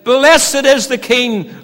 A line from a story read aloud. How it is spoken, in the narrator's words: they cried